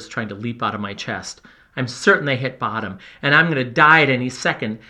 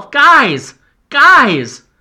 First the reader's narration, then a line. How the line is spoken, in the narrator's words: Then louder, I call, almost screaming myself